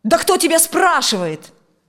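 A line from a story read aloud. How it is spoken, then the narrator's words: Furious shout. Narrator (Russian): закричал он, в душе желая разорвать дочь в клочья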